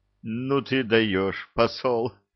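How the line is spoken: Forced out after pause. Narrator (Russian): выдавил из себя Илья спустя несколько минут

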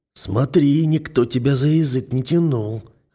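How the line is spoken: Hoarse warning. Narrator (Russian): хрипло предупреждаю

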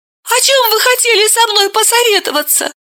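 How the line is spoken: Embarrassed squeak. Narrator (Russian): смущаясь, пискнула Вета

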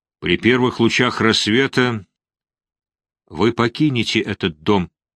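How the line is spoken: Even voice. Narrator (Russian): сказала она ровным голосом

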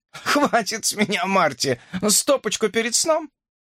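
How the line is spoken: Laughing. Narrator (Russian): Ред рассмеялась и сказала

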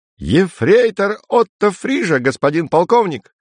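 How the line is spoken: Delighted squeal. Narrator (Russian): С восторгом взвизгнул Отто

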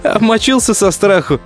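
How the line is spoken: Laughing. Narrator (Russian): Засмеялся Коля

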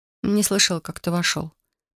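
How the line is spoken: Muttered. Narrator (Russian): пробормотала

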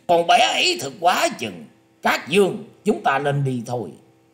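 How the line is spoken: Loud hearty laughter. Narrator (Vietnamese): Đoan Mộc Hoa cất tiếng cười to ha hả nói

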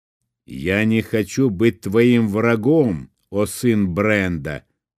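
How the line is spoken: Plain. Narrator (Russian): сказал Джарт

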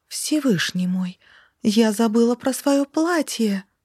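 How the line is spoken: Exclaimed. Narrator (Russian): воскликнула Лорана

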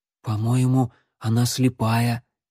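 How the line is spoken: Quiet. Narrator (Russian): негромко сказал Алан

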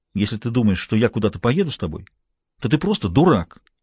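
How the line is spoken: Angry. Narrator (Russian): сказала она сердито

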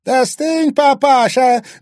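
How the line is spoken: Angry shout. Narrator (Russian): злобно крикнула Саяна

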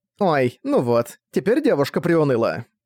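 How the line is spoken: Snide remark. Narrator (Russian): Ехидно заметила Шинка

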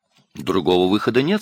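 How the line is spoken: Plain. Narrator (Russian): сказал Чьюи

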